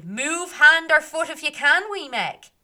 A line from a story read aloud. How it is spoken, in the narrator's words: the men shouted